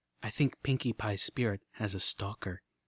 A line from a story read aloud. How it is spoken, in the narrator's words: Velvet leaned close to Calamity and whispered